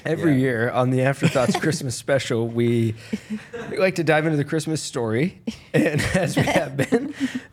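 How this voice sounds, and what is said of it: Announcer-style radio voice. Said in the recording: “going into like radio voice mode when you start telling the story ... Like a pilot on a plane”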